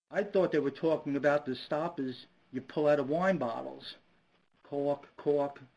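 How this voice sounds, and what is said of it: Brooklyn accent. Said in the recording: “I'm a guy with a Brooklyn accent.”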